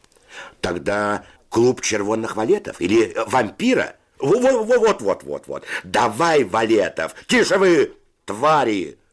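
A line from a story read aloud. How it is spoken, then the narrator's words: Shouting. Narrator (Russian): закричал Федя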